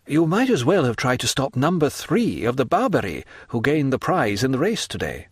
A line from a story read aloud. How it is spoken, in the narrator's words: replied Franz